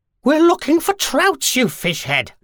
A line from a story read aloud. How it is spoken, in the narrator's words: snapped the witch